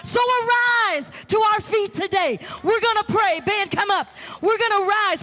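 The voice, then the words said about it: Yelling, loud excited preaching. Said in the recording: “you're yelling." Oh, yes, I am, because I am stirred up this morning.”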